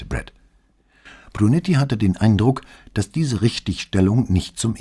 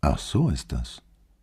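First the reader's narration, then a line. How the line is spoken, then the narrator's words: Soft. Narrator (German): Flavia ... sagte leise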